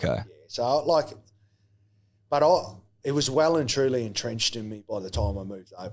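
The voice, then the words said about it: Australian-sounding accent with Kiwi traces. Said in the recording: “you've managed to hold onto a Kiwi accent better than anyone who's lived here for a ... probably the most Australian Kiwi accent of all time ... You've still got like still heavy Kiwi in ... my wife tells me I've got the most ochre Aussie accent of all time ... There's a little bit at the back end.”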